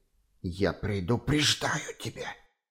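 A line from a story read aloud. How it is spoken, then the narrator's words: Hissed. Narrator (Russian): зашипел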